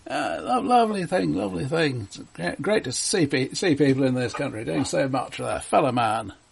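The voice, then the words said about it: English accent. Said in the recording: “listen to that accent. You'd be an Englishman?”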